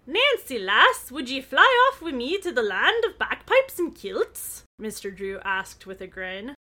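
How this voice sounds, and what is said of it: Put-on Scottish accent. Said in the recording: “how do you like my Scottish accent? ... that's really good ... That's so genuine and realistic.”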